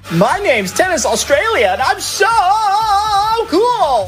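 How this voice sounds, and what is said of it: Mock American accent. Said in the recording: “why does Tennys Australia have an American accent?”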